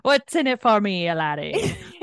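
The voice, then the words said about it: Attempted Scottish accent, pirate-like. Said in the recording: “So you should do that in a Scottish accent ... That sounds like a fucking pirate.”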